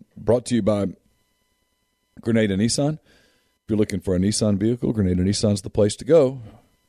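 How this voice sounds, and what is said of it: Hoarse, fading voice. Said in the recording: “man, I'm losing my voice here. It's weird, isn't it?”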